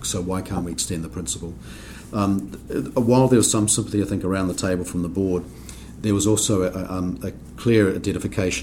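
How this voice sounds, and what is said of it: New Zealand accent. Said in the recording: “you might tell from my accent, I come from New Zealand”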